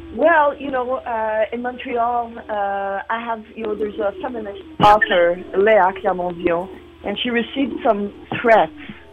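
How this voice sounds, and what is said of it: Quebecois French accent. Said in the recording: “you are a Quebecois ... You're gonna hear it with my accent.”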